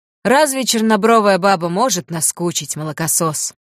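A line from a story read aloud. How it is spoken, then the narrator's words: Sighing. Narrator (Russian): Тот вздохнул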